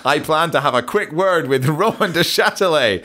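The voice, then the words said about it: Scottish-accented Jim White impression. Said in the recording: “in a Scottish accent ... that's ... doing an impersonation of Jim White”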